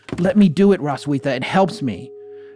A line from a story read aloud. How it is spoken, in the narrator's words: she would exclaim